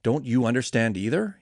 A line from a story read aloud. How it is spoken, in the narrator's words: he asked